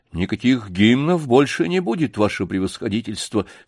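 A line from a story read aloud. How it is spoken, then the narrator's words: Calm reply. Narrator (Russian): спокойно ответил Сашка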